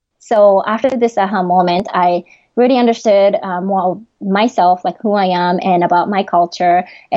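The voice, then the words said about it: Japanese accent in English. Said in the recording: “my Japanese accent when I'm talking using English”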